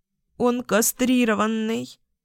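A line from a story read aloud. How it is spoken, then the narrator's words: Sobbing again. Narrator (Russian): опять всхлипнула Вика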